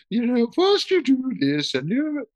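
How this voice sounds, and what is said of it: Imitates another person's voice. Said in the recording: “Sounds like Julia Child, huh?... do my Julia Child voice.”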